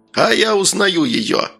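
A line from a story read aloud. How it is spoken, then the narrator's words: Joyful shouting. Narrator (Russian): радостно закричал Мыр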